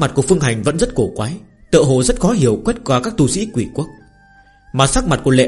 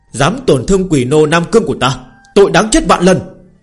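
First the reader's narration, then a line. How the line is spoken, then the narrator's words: Loud shout, mid-fight. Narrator (Vietnamese): quỷ tướng đang ác đấu với Lãnh Tử Viêm hét lớn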